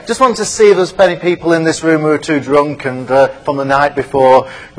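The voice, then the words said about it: British accent. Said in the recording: “As you can probably tell from my accent, I'm not from the States, I'm from the UK”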